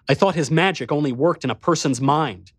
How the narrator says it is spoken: I snarled at him

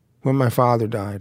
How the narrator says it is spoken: I said

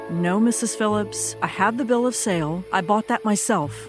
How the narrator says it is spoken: Alberta calmly replied

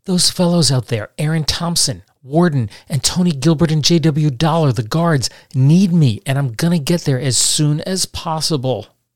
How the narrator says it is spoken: he pleaded with Calloway

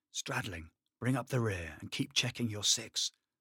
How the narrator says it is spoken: Lewis whispered

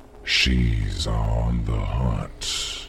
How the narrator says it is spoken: he said, his voice a mellow, gentle taunt

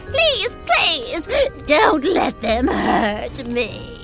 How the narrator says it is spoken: she moaned

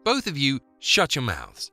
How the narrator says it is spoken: snapped Lena

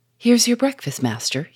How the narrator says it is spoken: he said

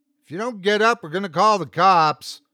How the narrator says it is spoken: Cindy called out

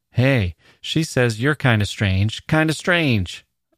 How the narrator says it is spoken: Arnold Friend cried

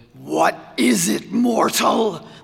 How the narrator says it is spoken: growled the Reaper

